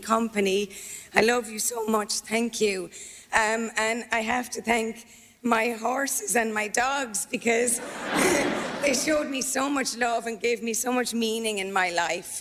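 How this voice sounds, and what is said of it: Irish Tipperary accent. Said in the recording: “a beautiful Tipperary accent as well ... certainly no change to the lovely Tipperary accent”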